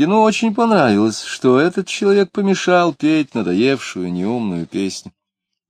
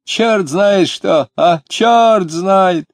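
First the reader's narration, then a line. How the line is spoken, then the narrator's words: Drunk man laughing speech. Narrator (Russian): Пьяный тоже начал смеяться, говоря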